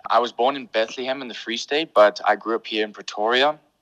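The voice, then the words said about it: English-speaking accent. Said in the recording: “as you can tell by my voice and accent, I'm very much English.”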